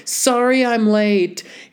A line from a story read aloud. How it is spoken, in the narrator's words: A voice called out across the quad